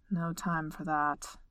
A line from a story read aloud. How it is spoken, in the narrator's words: Thorne grumbled, but his heart wasn't in it